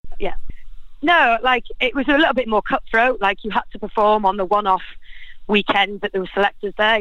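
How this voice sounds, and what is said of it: Out of breath while talking. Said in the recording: “I'm a bit out of breath here walking to work”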